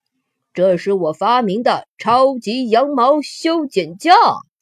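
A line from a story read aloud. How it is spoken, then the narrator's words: Proud and loud. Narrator (Chinese): 福瑞德骄傲的大声说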